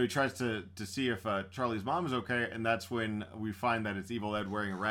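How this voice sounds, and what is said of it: Usual voice. Nothing is said of it.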